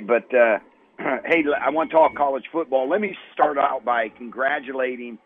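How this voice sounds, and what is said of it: Hoarse, strained voice. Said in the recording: “I've lost my voice, I think, screaming for the Cards yesterday.”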